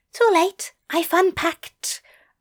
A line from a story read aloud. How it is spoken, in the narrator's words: Aziraphale whispered